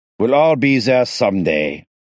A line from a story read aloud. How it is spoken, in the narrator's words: Moses barked suddenly